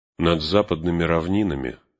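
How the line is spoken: Gloomy. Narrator (Russian): сказал он мрачно

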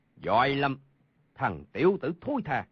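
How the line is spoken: Loud roar. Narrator (Vietnamese): Hầu Thông Hải gầm lớn một tiếng

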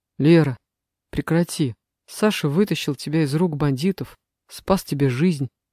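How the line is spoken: Quiet. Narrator (Russian): тихо проговорил Илья

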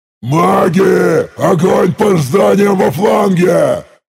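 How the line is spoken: Booming roar. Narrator (Russian): гулко взревел я

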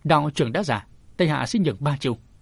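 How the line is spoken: Cold. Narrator (Vietnamese): Tống Nguyên lạnh lùng nói

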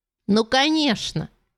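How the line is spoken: Glad exclamation. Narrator (Russian): воскликнула Лиза, обрадованная тем, что Эви наконец поняла важность происходящего

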